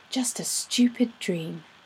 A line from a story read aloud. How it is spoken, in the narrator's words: she muttered